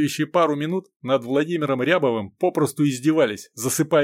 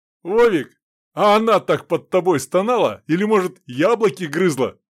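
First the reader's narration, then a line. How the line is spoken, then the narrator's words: Laughing joke. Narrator (Russian): подхватил шутку шпала, засмеявшись, широко открывая рот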